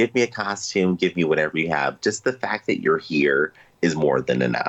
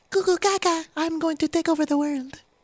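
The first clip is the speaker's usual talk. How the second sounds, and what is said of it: Baby-voiced Thanos impression. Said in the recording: “that's not that's not a great baby Thanos impression, but I tried ... I think Thanos still had hope in his voice when he was a baby.”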